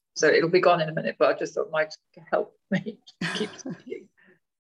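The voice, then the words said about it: Croaky voice. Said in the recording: “My voice has been croaky”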